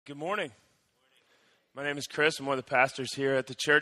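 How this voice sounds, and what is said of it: Hoarse voice from a cold. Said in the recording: “I'm struggling through a bit of a cold. My voice is kind of going in and out.”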